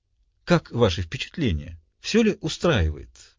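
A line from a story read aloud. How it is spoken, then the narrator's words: Soft, friendly voice. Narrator (Russian): Голос его звучал мягко, доброжелательно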